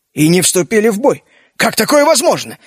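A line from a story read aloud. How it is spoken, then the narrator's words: Bewildered exclamation. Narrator (Russian): недоуменно воскликнул Джина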